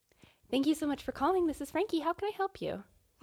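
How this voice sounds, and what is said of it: Polite customer service phone voice. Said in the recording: “customer service voice ... my phone voice”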